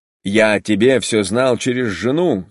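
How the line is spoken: Plain. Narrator (Russian): сказал Серпуховской

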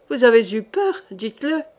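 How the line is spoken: Nervous sneering. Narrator (French): ricana le capitaine, très peu rassuré d'ailleurs

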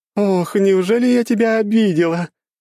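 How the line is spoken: Ringing laughter. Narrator (Russian): звонко хохотала девушка

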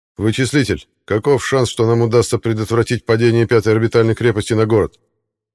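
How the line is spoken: Sharp question. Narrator (Russian): Резко спросил Аббас

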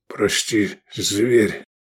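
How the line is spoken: Muffled, hollow. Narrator (Russian): глухо вымолвил Лобанов

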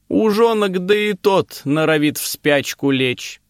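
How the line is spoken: Loud. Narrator (Russian): громко сказала

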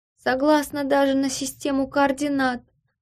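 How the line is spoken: Bargaining exclamation. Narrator (Russian): вскрикнула, будто торговалась

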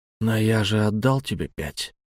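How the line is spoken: Hoarse, hateful rasp. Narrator (Russian): просипел я с ненавистью

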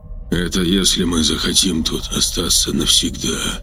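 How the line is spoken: Dull muffled reply. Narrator (Russian): глухо ответил Анатолий

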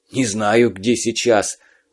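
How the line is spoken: Breathed out. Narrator (Russian): выдохнул Цыбух

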